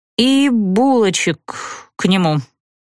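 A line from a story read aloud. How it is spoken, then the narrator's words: Moaning. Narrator (Russian): простонала я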